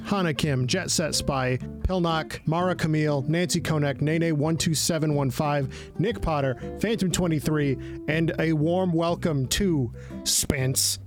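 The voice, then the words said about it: Put-on AI-style voice with accent. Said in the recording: “my AI voice ... I always kind of end up with this accent when I'm doing these ads”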